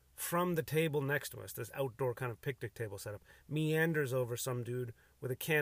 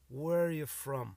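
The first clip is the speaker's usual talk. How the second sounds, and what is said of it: Slow, slurred, drunken-sounding voice. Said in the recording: “he said it with just that accent... he had like a buzz on him where I couldn't tell if he has a bit of an Irish accent, or he's just kind of like moving slowly”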